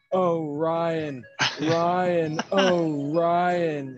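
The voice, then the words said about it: Imitates another person's voice. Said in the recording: “my impression of Chad”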